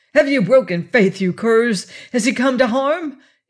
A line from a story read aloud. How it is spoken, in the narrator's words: cried